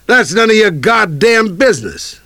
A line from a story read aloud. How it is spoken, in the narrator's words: I yelled back